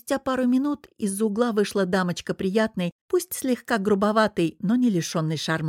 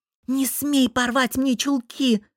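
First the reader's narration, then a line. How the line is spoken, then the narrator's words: Hissed. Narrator (Russian): зашипела на него Мари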